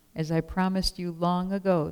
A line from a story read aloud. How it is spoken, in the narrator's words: the woman said